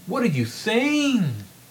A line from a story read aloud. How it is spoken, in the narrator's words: Newman exclaimed